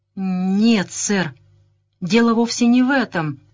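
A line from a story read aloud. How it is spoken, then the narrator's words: Forced out reluctantly. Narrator (Russian): наконец выдавил из себя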